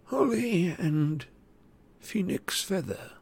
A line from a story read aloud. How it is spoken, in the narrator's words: said Ollivander in a tremulous voice